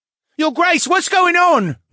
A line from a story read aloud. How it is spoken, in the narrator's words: one of them called out to the Duke